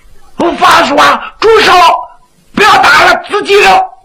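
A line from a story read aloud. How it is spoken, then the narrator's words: Shouting. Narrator (Chinese): 徐良就喊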